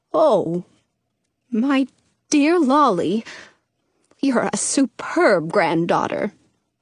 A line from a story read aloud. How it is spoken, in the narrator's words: Dottie says sadly